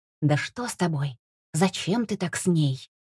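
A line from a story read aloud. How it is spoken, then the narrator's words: Furious hiss. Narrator (Russian): Паша перевел яростный взор к другу и прошипел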